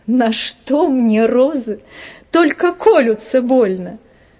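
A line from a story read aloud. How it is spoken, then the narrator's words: Laughing. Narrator (Russian): Я смеялась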